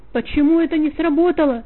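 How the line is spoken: King shouting angrily. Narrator (Russian): закричал король на обманщика

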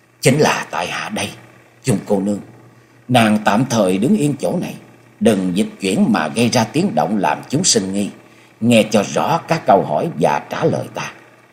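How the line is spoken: Low, restrained voice. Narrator (Vietnamese): Cố gắng đè nén cảm xúc ở trong lòng, hạ giọng nói

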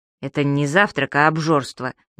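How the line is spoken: Displeased mutter. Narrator (Russian): недовольно буркнул господин Пепперминт

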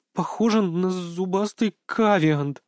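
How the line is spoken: Fearful stammering girl. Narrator (Russian): заикаясь от страха, ответила белокурая Настя

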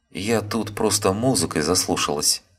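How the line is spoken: Quick flustered mumbling. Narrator (Russian): быстро забормотала, пытаясь найти объяснение своему положению она

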